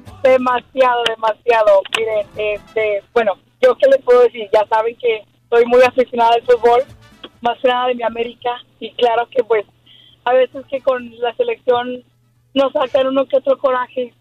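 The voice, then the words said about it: Hoarse, strained voice. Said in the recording (Spanish): “Andas afónica de tanto gritar todavía ... Estoy afónica”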